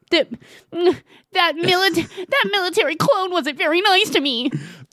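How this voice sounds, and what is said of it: Whiny mocking baby voice. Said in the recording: “mocking people in a baby voice”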